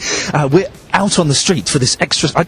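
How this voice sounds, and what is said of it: Whispering. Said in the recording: “Why are we whispering? ... You feel like you can't talk loud.”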